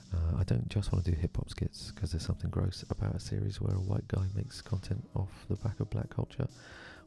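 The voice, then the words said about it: Soft, hushed bedtime voice. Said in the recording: “I'm recording in my bedtime voice because it's past bedtime.”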